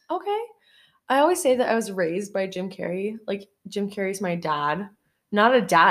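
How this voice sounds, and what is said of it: Usual voice. Nothing is said of it.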